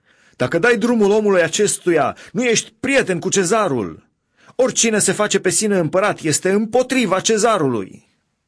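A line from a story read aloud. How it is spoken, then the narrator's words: Crowd shouting. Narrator (Romanian): iudeii strigau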